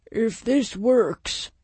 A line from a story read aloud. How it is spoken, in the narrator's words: Walker grumbled